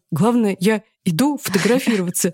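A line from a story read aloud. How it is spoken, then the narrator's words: Stuttering. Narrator (Russian): Он сразу стал заикаться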